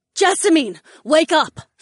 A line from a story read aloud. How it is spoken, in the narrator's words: Sienna shouted